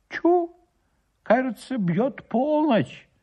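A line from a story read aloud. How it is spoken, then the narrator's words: Village elder exclaiming. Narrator (Russian): воскликнул староста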